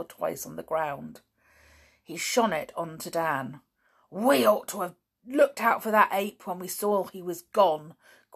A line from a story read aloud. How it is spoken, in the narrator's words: growled Danny